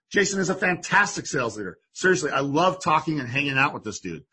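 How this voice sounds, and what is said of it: Excited, energetic voice. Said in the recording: “I am pumped to have him today, if you can't tell from my voice.”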